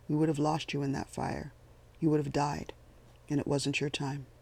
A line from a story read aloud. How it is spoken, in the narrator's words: he said calmly